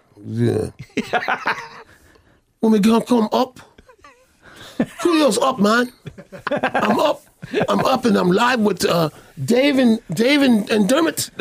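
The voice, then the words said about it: Irish Dublin hip hop accent. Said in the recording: “How's your Irish Dublin hip hop accent?”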